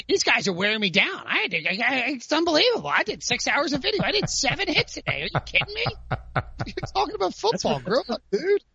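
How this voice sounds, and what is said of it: Complaining impression of Pete Prisco. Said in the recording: “Just do your Pete Prisco complaining. Just do your impression of him because it's a fantastic. ... That's pretty good. ... That's really good.”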